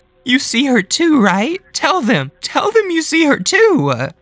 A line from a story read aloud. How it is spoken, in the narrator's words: Cynthia cried